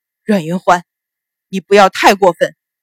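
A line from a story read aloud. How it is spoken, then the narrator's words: Through gritted teeth. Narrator (Chinese): 秦鹏脸色微变，咬牙道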